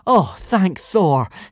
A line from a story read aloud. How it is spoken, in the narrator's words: Hiccup exclaimed joyfully